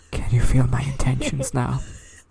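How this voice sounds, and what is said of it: Very quiet voice. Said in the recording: “his voice was very quiet.”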